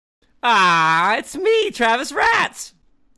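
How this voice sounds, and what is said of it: Harley Quinn character voice. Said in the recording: “Was that your Harlequin impression? ... That was my Harlequin.”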